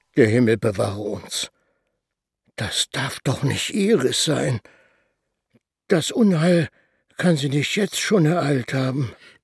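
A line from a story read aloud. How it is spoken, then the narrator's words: Murmured. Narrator (German): murmelte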